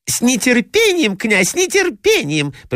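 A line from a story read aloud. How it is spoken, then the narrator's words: Squeaky voices, several. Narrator (Russian): пропищали другие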